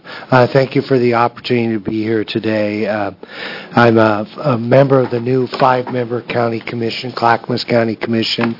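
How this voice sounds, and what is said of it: Congested voice from a cold. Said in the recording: “I've got a little bit of a cold.”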